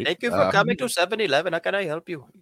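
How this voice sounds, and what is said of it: Put-on shop clerk accent. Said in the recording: “Oops, sorry, wrong accent.”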